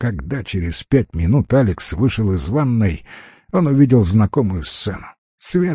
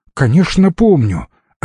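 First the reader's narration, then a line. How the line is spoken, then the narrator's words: Offended reply. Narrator (Russian): обиженно ответила она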